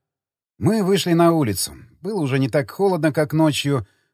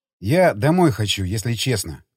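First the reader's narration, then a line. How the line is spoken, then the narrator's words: Sighing. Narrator (Russian): вздохнул я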